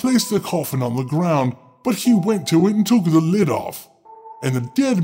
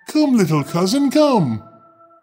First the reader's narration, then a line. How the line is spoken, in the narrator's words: he cried